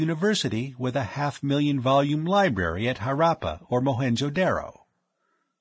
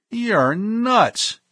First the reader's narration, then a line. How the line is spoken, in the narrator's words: he cried